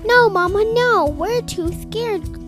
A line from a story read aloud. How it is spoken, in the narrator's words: cried Waddle, Piddle, Puddle, and Little Quack